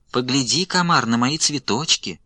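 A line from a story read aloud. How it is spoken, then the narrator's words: Sweet little voice. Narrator (Russian): Отвечает травинка сладким голоском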